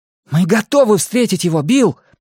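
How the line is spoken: Shouting. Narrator (Russian): прокричал Стэн

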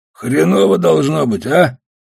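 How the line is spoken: Hoarse voice. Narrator (Russian): сказал хриплый

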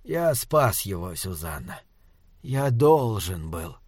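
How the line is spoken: Whisper. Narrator (Russian): прошептал доктор

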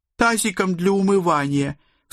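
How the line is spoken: Sobbing daughter. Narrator (Russian): всхлипнула моя дочь

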